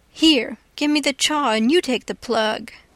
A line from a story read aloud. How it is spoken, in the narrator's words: looks mournfully at it when it's handed back, and says sarcastic